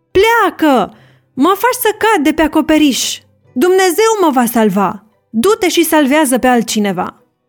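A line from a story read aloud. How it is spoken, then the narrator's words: Old man shouting. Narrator (Romanian): bătrânul a strigat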